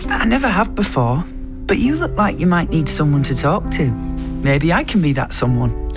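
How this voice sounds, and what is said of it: Pudsey's reassuring slight Yorkshire voice. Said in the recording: “Is that what you imagined Pudsey would sound like? ... Sounds like really reassuring. And a slight Yorkshire accent.”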